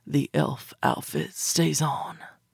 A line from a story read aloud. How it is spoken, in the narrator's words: whispered darkly